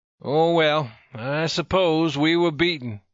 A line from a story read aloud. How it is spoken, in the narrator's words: he remarked sadly